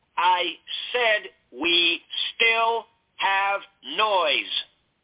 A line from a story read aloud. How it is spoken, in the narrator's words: Lovell said back in a loud, slow voice